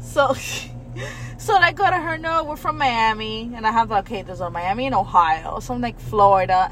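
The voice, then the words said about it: Hispanic-influenced Miami accent. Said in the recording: “I characterize it as a Miami accent. I don't think that your accent sounds like you're from outside of America... It's definitely Hispanic influenced.”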